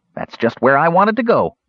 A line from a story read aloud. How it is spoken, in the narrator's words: Earwig said happily